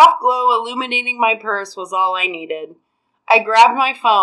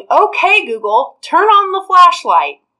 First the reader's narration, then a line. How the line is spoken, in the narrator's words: yelling